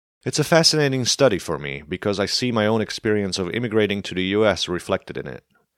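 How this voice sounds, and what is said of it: Slovak accent in English. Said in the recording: “Slovakia is home home ... I stand out as soon as I open my mouth. Where's your accent from is the number one question I get.”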